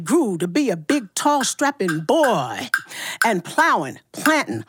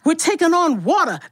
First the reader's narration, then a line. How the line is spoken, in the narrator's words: the captain cried